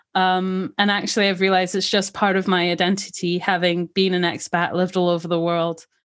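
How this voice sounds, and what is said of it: Mixed British-sounding expat accent. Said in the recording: “a more British sounding twang ... It's a hodgepodge of everything. People hear what they want. Some people can hear South African in there. Some people can hear Scottish.”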